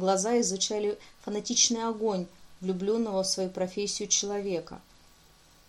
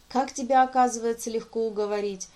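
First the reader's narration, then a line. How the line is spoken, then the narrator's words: Laughing. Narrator (Russian): Анрасер рассмеялся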